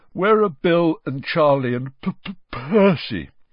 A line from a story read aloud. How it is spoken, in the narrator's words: said George, failing to stifle a huge yawn